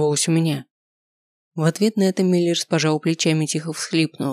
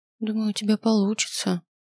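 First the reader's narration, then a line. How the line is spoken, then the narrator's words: Uncertain. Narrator (Russian): неуверенно сказал Шелли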